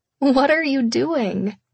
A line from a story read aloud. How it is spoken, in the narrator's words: I laughed breathlessly